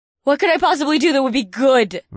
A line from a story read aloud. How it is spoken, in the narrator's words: Valerie scoffed